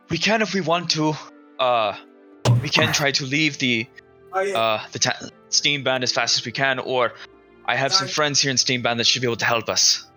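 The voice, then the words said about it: Badly done put-on accent. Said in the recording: “The accent. ... Yeah, it's badly done.”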